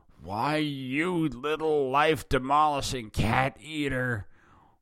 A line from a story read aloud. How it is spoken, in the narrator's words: Willy growled angrily